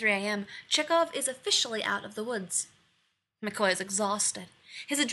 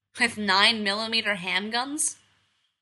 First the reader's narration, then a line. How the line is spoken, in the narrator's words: McCoy snaps